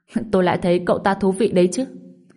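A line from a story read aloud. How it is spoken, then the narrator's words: Laughing loudly. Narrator (Vietnamese): Đoàn Long cười lớn nói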